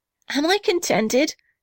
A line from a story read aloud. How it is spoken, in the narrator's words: cried the little red house